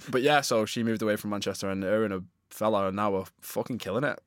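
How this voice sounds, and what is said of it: Northern English accent. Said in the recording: “We're northerners, they'll tell. ... hear your accent and they'll know. ... I think my accent's a bit of a fucking giveaway”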